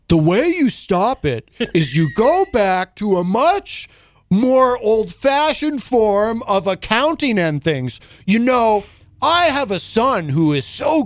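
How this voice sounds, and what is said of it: Imitates another person's voice. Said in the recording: “my Trump impression is awful ... But it's pretty bad. It's pretty bad.”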